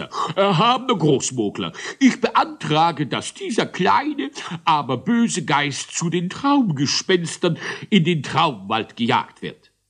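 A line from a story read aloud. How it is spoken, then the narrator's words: Judge's thundering voice. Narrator (German): donnerte der Moglerrichter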